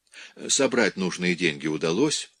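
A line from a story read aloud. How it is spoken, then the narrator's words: Soft question. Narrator (Russian): мягко спросил Пьер Антони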